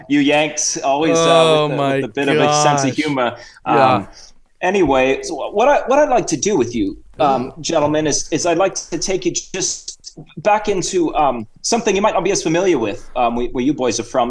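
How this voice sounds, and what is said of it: Put-on Cockney-Australian mixed accent. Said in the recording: “I've got a bit of a Cockney accent and Australian thing mixing here”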